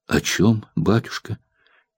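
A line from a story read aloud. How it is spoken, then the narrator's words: Quiet question. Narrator (Russian): тихо спросила Маня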